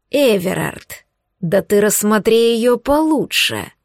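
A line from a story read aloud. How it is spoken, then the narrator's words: Muttered through teeth. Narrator (Russian): процедил Марвин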